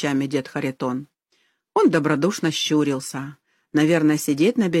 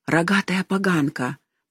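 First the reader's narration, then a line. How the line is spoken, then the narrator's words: Old man's whisper. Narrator (Russian): прошептал дед Харитон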